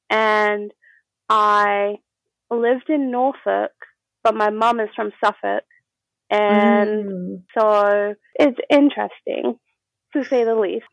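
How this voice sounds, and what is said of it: Soothing generic English accent. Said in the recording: “I guess I do sound very like generic, like English ... It's like really, just like really soothing. It's a really soothing accent ... You have a very nice accent.”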